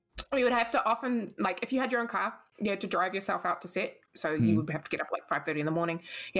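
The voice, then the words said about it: Accent where six sounds like sex. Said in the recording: “Your accent. ... 6 and sex are the same thing in your accent.”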